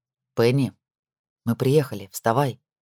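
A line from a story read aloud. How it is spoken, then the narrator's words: Soft male voice. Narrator (Russian): мягко прозвучал мужской голос слева от нее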